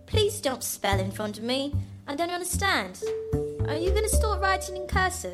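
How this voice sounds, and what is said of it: Child voice with English accent. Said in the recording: “the English accent”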